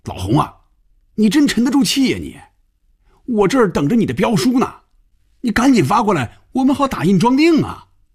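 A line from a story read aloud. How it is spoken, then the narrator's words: Loud shout. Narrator (Chinese): 范宇宙冲红军大声喊着，连坐在对面的菲比都能听得见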